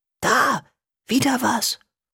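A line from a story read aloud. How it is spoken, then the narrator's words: Hissing. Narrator (German): zischte Julius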